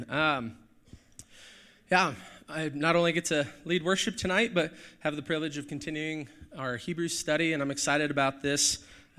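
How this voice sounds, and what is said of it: Hoarse, strained voice. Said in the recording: “I lost my voice this week ... I've got my tea and my cough drops and my water. Hopefully I don't cough too much.”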